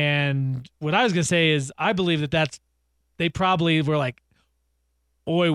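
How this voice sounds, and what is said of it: Usual voice. Nothing is said of it.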